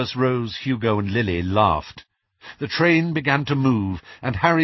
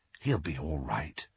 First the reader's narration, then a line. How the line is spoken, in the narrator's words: murmured Ginny